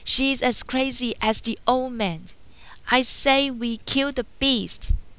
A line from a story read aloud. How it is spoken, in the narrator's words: Enraged, Gaston shouted